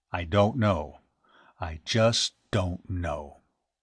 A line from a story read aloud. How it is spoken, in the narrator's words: the captain grunted